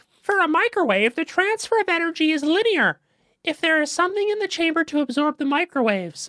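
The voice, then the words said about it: Put-on mock voice while reading. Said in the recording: “doing that voice”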